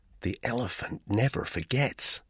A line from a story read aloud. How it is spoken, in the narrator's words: murmured Mary Skelton